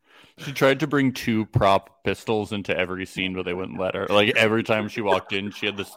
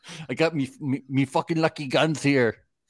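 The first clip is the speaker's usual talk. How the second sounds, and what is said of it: Exaggerated leprechaun-style Irish accent. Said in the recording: “I got my Irish accent... You're doing a leprechaun.”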